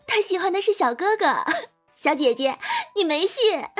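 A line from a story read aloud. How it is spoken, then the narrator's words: Breathless laughing. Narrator (Chinese): 笑得上气不接下气的对服务员小姐姐说道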